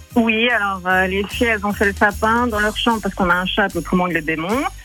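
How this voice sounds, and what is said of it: Southern French accent. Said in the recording (French): “Il y a l'accent du sud”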